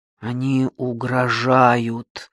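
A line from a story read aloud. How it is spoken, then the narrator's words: Hoarse reply. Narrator (Russian): хрипло откликнулся Марцелл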